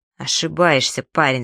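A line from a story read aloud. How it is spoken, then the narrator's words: Calm reply. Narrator (Russian): спокойно ответил Найлз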